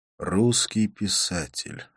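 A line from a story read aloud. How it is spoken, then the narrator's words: Sighing. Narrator (Russian): вздохнул я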